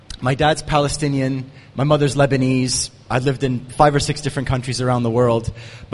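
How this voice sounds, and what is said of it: American accent. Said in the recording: “I have a funny American accent.”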